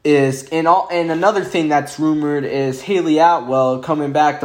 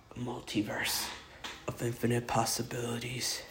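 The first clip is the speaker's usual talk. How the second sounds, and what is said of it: Impression of the Watcher. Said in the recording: “my Watcher impression. It's either really bad or it's really good.”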